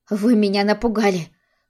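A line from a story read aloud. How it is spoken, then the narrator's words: Breathless exhale. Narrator (Russian): выдохнула Арина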